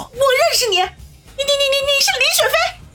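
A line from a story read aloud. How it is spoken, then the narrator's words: Excited exclamation. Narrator (Chinese): 叶小楠惊呼一声，激动的叫道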